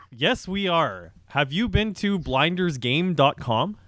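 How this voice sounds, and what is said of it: Smooth announcer-style radio voice. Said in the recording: “radio voice”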